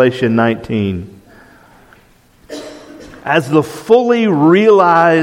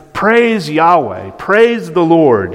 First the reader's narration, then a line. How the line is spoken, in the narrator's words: they're shouting